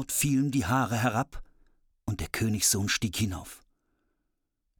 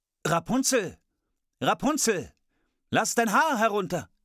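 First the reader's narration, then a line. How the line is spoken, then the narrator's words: Calling out. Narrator (German): er rief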